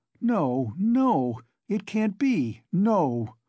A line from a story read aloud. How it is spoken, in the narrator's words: Sonia cried aloud in desperation, as though she had been stabbed